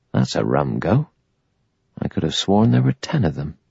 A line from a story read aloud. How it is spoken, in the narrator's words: muttered to himself